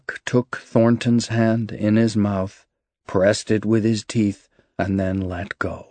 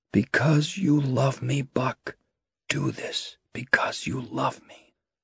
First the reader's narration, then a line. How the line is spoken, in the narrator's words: Thornton whispered in his ear